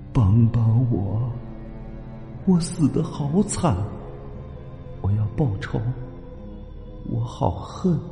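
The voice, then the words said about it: Cold, eerie ghostly voice. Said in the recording (Chinese): “女鬼再次用阴冷的声音说”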